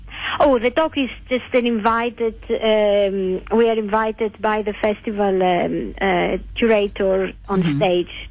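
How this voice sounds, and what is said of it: Greek accent. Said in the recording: “I hear an accent ... I'm Greek.”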